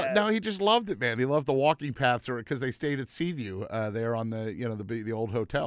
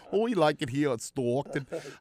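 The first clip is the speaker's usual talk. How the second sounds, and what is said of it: Imitated Boston accent. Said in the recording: “as Brett Brown used to say ... I love that Boston accent.”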